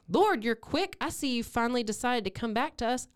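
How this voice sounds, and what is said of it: Put-on Texas Southern accent. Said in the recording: “I keep giving everybody a Texas accent ... I'm a hillbilly from the South, so this is just how I make people's voices sound”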